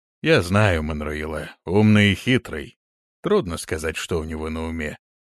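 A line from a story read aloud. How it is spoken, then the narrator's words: Deep bass after sigh. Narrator (Russian): Он шумно вздохнул и пробасил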